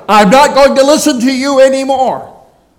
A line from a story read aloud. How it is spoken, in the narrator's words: They began to shout